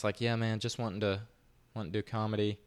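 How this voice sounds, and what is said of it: Exaggerated Southern US accent. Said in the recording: “I laid on, you know, more of a southern accent than I have.”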